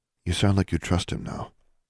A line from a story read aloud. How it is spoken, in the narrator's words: Anna mumbled